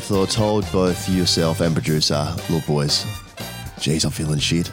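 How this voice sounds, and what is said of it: Sounds sick, under the weather. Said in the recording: “You sound a bit sick.”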